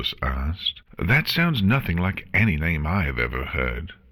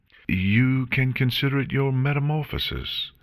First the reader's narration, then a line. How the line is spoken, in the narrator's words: Celestia said cheerfully